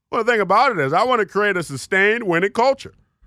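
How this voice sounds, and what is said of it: Imitates another person's voice. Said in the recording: “do my best Ron Rivera impression.”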